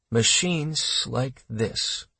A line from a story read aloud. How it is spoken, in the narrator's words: Brad said quietly